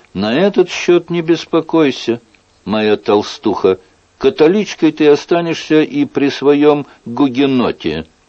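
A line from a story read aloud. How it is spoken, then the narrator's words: King's loud declaration. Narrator (Russian): король громко заявил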